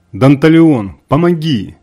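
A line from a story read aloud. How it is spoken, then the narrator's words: Desperate fading-hope shout. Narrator (Russian): стающей надеждой крикнул обреченный колдун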